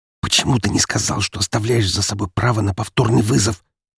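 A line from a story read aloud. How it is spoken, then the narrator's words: Hissed into ear. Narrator (Russian): зашипела мне в ухо Марина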